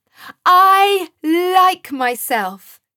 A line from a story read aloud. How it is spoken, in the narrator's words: shouted Joseph at the top of his voice and with joy in his heart